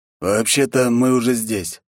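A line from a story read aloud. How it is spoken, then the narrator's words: Hoarse voice. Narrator (Russian): произнес хриплый голос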